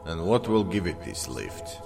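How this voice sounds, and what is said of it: Serbian accent. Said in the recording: “in a Serbian accent”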